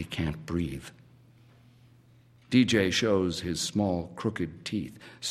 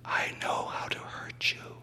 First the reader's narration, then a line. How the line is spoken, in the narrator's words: DJ whispers